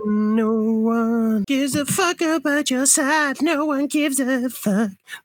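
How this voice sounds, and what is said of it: Sung imitation of a pop singer. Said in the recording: “very good impression of Miley Cyrus”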